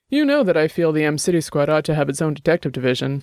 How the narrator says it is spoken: Larson said

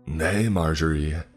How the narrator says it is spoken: Brian shouted to my sister

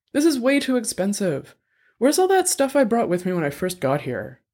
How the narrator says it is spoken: Annabelle sighed

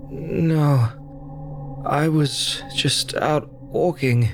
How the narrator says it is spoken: he groaned

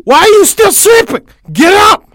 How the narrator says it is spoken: shrieked

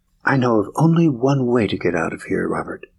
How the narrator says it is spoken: she whispered

